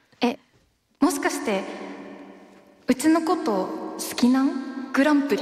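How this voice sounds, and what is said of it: Attempted Hakata dialect, not quite right. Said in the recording (Japanese): “博多弁で言うぞ ... ちょっと違うかも ... 絶対違う”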